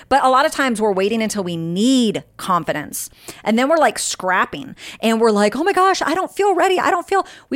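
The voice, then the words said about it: Very fast, hyped-up speech. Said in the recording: “I'm talking so fast. ... I'm like really hyped today ... I'm like all over the place.”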